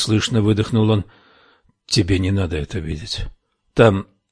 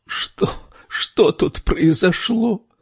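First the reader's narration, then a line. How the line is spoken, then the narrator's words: Moaning. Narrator (Russian): простонала Камилла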